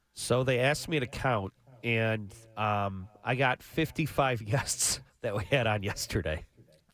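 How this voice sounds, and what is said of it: Slightly hoarse voice. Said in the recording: “Someone stole my voice, too. ... It's a little hoarse”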